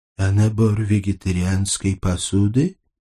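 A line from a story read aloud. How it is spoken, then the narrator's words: Muttering. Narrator (Russian): пробормотал этот тощий псих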